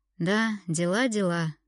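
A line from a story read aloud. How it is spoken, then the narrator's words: Sighing. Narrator (Russian): вздохнул Артур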